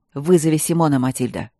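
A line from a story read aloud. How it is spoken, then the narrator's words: Sudden sharp bark. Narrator (Russian): рявкнул никогда не повышавший голоса барон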